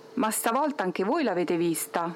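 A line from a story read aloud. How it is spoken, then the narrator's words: Confident tone. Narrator (Italian): disse in tono sicuro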